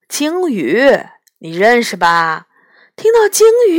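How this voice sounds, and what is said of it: Usual voice. Nothing is said of it.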